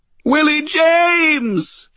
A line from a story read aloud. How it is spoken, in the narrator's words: She cried, the tears streaming down her face